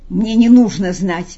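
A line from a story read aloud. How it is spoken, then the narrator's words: Choked angry voice. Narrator (Russian): придушенным злым голосом отозвался Пилат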